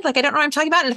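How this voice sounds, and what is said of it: Ditzy, airheaded approachable tone. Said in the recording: “approachable voice pattern, now I sound kind of ditzy and stupid”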